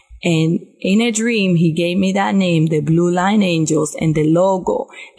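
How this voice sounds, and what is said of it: Heavy non-native English accent. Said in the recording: “I don't speak English well. I have a big accent.”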